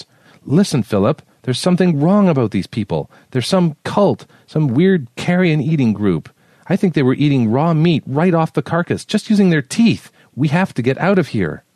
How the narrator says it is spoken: Julie shouted over his words

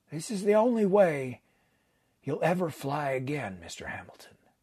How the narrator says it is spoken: He paused and then added quietly

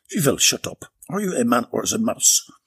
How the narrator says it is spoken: yelping decreased to one of whimpering

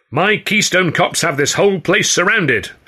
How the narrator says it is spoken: Hurley cried, calling into the wings

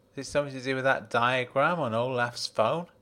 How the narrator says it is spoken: He laughed

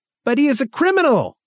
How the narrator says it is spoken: cried Angmark

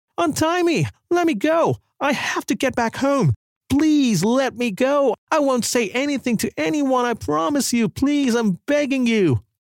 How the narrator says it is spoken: she began panicking, and with desperation in her voice, cried out as loud as she could

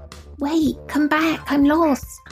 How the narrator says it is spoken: the guy from behind him went in a really childish voice

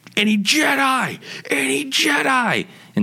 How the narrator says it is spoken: Barksy yells

